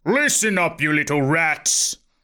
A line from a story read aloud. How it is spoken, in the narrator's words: He snarled